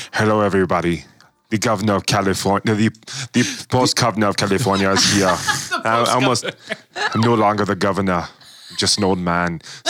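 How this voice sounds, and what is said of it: Arnold Schwarzenegger impression. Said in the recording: “I almost did Arnold again”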